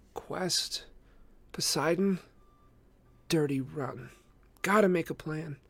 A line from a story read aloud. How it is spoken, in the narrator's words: muttering to herself